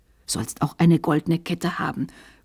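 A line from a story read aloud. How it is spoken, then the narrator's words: Whispering in ear. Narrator (German): flüsterte er ihm ins Ohr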